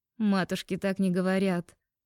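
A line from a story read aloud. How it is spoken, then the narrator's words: Burst of laughter. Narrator (Russian): расхохоталась я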